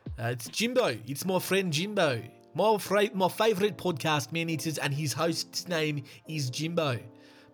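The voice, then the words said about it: Put-on white South African accent. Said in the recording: “as the South Africans would say ... Probably a very offensive South African accent, but like a white South African.”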